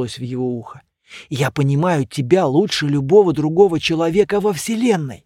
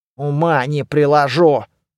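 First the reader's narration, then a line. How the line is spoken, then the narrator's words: Grumbled. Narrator (Russian): пробурчал Люк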